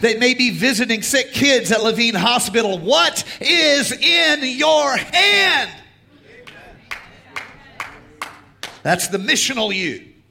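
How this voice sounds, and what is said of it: Yelling preacher. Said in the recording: “I'm yelling at you. ... I yell sometimes, and it's a yelling Sunday”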